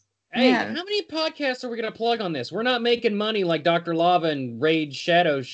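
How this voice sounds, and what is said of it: Usual voice. Nothing is said of it.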